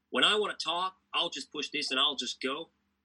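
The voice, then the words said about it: Imitates another person's voice. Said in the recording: “forgive my accent, boys, I'll try and do my best impersonation”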